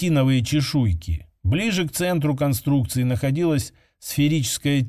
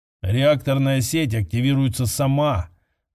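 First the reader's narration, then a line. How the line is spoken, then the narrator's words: Gloomy remark. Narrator (Russian): заметил мрачно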